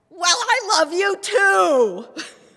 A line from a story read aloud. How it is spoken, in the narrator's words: I shouted back